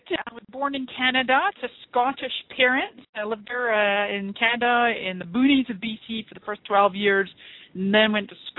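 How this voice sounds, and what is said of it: Mixed non-local accent. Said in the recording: “you're in San Diego, but your accent says something different. ... it is quite a mixture. I'm a bit of a hybrid.”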